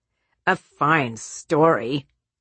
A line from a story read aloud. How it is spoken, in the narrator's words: sneered Peterson, practically apoplectic and sweating all over the place